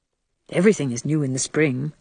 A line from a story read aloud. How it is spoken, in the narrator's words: said Anne